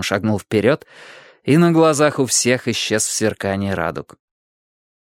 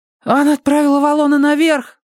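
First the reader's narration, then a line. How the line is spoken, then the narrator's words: Sudden cry. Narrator (Russian): вскрикнул кто-то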